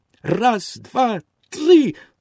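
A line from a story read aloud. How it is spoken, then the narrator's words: Exclaimed. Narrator (Ukrainian): вигукнув дерев'яний хлопчик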